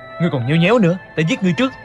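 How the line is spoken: Impatient shout. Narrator (Vietnamese): sốt cả ruột quát lên

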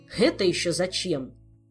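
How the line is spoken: Menacing growl. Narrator (Russian): угрожающе прорычал Диего

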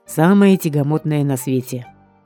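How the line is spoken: Snorting. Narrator (Russian): хмыкнул Бёрр

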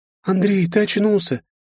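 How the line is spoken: Joyful, guilty exclaiming. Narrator (Russian): Радостно и при этом виновато воскликнула Лиза

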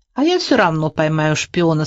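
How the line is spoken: Plain. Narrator (Russian): сказал Толик

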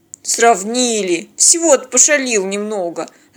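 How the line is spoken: Offended grumble. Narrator (Russian): обиженно проворчал Теодор

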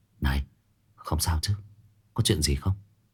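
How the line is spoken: Whispering. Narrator (Vietnamese): thì thầm nói chuyện với Dư Tô

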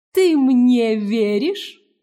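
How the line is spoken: Insinuating small voice. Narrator (Russian): вкрадчиво осведомился голосок

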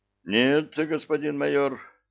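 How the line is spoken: Sigh. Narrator (Russian): вздохнул тот

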